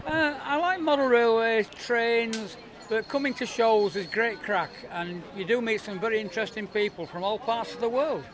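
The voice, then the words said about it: Yorkshire English accent. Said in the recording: “that's not a local accent. It's not Irish or American ... originally I'm from Yorkshire, Leeds”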